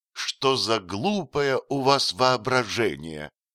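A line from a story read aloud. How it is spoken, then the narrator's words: Plain. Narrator (Russian): сказала госпожа Бракель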